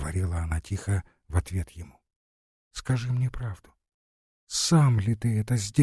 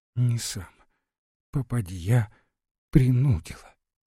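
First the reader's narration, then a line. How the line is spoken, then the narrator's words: Measured, then loud sobbing. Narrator (Russian): повторила с расстановкой жена и вдруг громко всхлипнула заплакала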